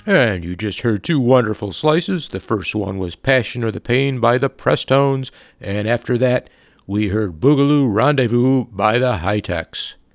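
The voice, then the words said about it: Put-on radio announcer voice. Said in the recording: “That's my radio voice”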